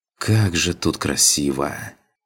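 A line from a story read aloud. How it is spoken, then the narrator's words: Admiring breathless exclamation. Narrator (Russian): Восхищенно выдохнула Иланка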